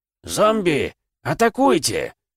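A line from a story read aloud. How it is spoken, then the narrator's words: Thunderous roar. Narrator (Russian): проревел Ксатул, и от его голоса сама пустыня задрожала от страха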